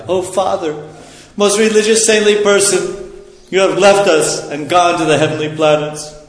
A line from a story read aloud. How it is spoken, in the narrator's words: Virtually bewildered by grief, anger, indignation, affliction, and lamentation, the sons of Jamadagni cried